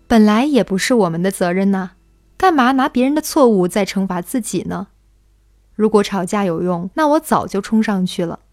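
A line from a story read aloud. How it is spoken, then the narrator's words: Laughing. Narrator (Chinese): 陈妈笑着说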